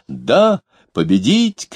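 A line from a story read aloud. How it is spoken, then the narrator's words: Shouting. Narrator (Russian): кричал он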